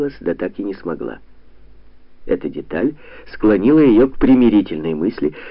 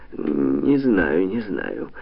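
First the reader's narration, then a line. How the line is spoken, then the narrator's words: Uncertain, wistful. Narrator (Russian): неуверенно сказала Надежда Михайловна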